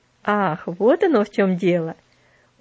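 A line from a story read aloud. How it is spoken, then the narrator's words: Laughing. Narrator (Russian): рассмеялся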